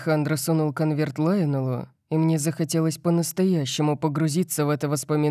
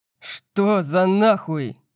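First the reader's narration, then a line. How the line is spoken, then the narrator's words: Roaring. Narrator (Russian): взревел я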